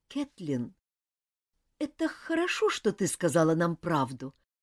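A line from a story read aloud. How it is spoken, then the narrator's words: Strained, forced out. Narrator (Russian): наконец выдавила из себя Дженни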